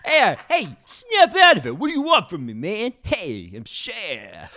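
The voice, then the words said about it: Poor Cher impression, sounds like Fonz. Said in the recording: “do a share impression ... That's my Cher ... Your Cher is Arthur Fonzarelli. That's your Cher.”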